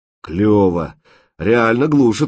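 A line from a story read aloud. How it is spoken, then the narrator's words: Delighted surprise. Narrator (Russian): радостно удивился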